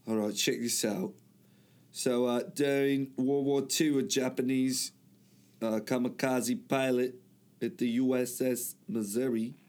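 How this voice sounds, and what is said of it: Put-on English accent. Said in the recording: “I don't know why I'm saying it like that, mate. ... Trying to get the English accent going here.”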